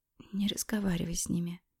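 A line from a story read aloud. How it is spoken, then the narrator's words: Whisper. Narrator (Russian): прошептала я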